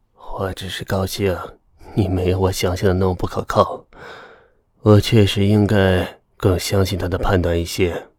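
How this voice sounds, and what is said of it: Faint, weak voice. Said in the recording (Chinese): “用细微的声音说道”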